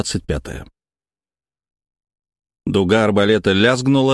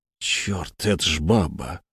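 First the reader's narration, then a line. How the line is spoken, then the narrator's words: Shocked breathless exclamation. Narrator (Russian): выдохнул тот, побледнев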